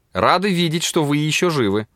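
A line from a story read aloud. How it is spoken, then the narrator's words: Laughing. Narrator (Russian): засмеялась Паула, обратившись к нему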